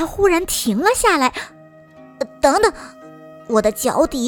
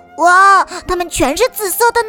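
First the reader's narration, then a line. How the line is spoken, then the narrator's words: Happy exclamation. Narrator (Chinese): 他高兴地叫起来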